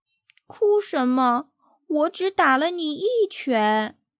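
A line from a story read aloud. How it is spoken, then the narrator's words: Shocked question. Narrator (Chinese): 他更震惊了，问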